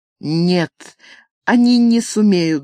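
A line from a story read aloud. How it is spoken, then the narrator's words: Trembling babble. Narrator (Russian): дрожащим голосом пролепетала Франческа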